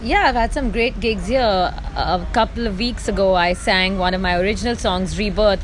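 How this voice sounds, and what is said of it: Speaks English with an accent. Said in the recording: “As you can hear, I have an accent”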